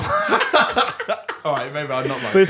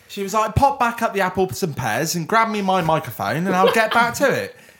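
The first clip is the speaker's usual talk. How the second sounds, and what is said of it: Cockney Michael Caine impression, Somerset-tinged. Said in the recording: “I can do my good Cockney one ... That was a little bit like Michael Caine, actually ... you've got a Western Supermare version of Michael Caine ... I always end up doing fucking Somerset”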